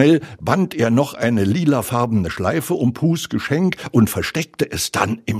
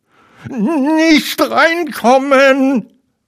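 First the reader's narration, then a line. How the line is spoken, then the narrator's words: Called out. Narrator (German): rief Ferkel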